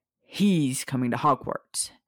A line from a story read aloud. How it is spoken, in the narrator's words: Sirius said, his voice low and threatening